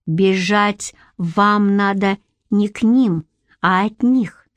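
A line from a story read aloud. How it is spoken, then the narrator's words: Plain. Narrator (Russian): сказал Шнырь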